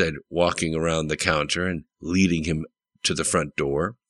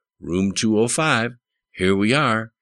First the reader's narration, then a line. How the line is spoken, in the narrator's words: she said in a soft southern voice, as though not to awaken anyone who might be sleeping